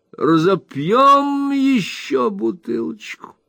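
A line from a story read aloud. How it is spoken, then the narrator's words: Loud, fading to barely audible. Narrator (Russian): провозгласил мистер Уинкли, начав очень громко, окончив чуть слышно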